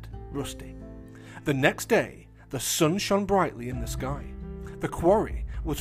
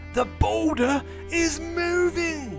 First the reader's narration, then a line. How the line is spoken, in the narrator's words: he shouted